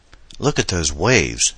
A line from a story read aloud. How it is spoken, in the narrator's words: Adam exclaimed